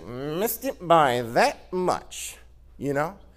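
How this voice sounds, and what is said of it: Maxwell Smart impression. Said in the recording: “that was a pretty good impression.”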